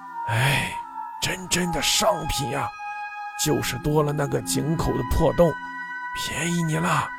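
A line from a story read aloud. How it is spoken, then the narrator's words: Grudging grumbling mutter. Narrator (Chinese): 老板咬咬牙 边装边嘟囔着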